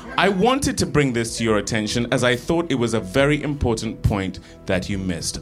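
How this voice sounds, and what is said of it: Refined English accent. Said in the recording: “That was very like Jane Austen. I mean, not just because of your accent”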